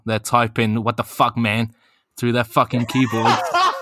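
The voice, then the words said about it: Bad put-on Boston accent. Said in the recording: “That might have been the worst accent I've ever heard in my life”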